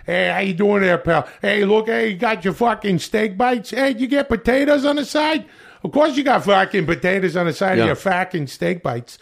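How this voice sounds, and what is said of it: Put-on Boston accent. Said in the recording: “we're just doing these miserable, like these Boston accent”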